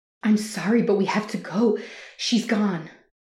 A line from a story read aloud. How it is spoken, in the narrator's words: pleaded with as much sensitivity as the situation could allow